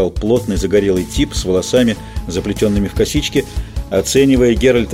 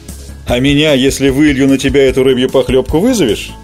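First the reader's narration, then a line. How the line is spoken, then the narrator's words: Loud guffawing. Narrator (Russian): захохотал голый по пояс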